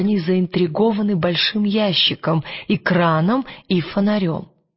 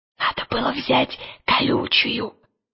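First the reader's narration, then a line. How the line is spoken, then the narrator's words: Whispered. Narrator (Russian): прошептал Пантелеймон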